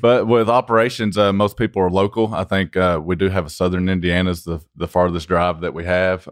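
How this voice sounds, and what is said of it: Country accent. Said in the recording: “You can tell from his accent, right? ... we're going to stick with the country accent”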